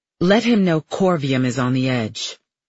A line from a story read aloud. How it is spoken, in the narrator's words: Farley adds, her voice strong and cutting, in order, but also something else